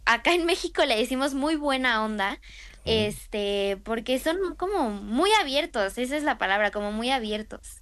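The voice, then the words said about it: Mexican Spanish accent. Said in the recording (Spanish): “Me encanta a mí el acento mexicano”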